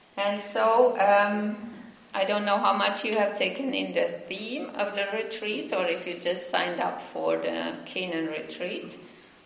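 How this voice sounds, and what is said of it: Finnish accent. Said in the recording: “I'm from Finland, and that's why I have an accent, so you really have to listen, you know, a little more carefully ... I never will lose my accent.”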